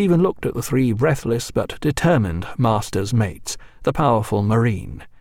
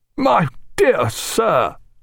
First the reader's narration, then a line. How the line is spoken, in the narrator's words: cried the governor